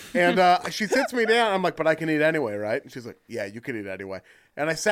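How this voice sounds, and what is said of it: Usual voice. Nothing is said of it.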